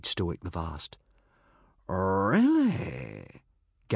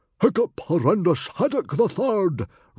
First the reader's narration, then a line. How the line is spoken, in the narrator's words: roared Stoic the Vast proudly